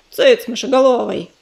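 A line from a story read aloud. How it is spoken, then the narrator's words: Growled. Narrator (Russian): рыкнул он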